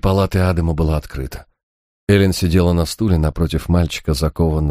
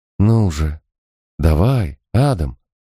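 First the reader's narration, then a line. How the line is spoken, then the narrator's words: Soft coaxing. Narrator (Russian): мягко уговаривала Эллен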